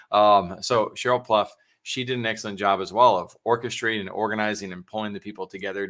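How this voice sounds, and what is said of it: Spanish accent. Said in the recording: “That's the Spanish accent in me”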